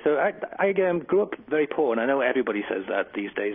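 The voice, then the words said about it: English accent. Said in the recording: “you can tell by my accent, I come from England”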